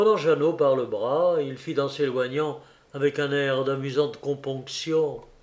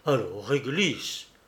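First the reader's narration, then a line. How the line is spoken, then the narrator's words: Low muffled scolding. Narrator (French): grondait sourdement Jacqueline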